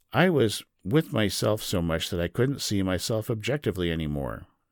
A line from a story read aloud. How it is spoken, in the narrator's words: she says